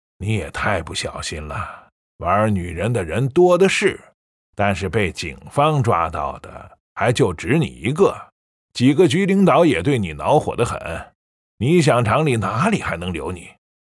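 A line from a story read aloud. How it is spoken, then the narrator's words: Sighing. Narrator (Chinese): 副厂长叹了口气，说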